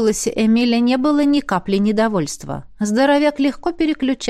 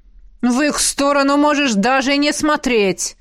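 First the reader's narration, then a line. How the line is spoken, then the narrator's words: Barked almost in unison. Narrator (Russian): Едва ли не хором рявкнули император и Элисандра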